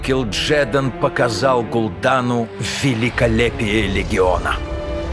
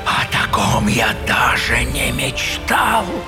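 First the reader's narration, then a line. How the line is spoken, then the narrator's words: Whisper. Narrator (Russian): прошептал Гул'дан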